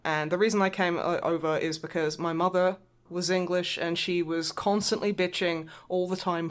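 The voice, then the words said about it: Softened Australian accent. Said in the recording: “keep your original accent ... very strong accent ... It was broader when I first met you ... So it has softened a bit ... think I'm from, like, London ... That accent, you from Australia?”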